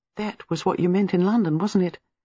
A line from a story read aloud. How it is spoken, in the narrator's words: Gwenda asked breathlessly